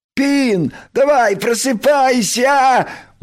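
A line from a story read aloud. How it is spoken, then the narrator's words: Cheerful shout. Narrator (Russian): бодро прокричал Крош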